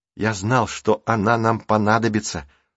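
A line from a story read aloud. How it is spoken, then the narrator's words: Whispering. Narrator (Russian): прошептал Рик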